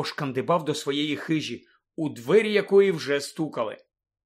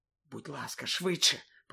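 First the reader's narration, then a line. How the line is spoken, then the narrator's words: Whispered. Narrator (Ukrainian): прошепотіла Герміона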